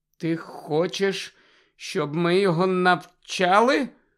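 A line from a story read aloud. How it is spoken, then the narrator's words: Hollow question. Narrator (Ukrainian): глухим голосом запитав Гаррі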